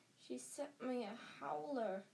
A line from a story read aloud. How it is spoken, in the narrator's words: said Ron faintly